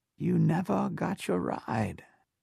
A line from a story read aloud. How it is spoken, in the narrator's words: she whispered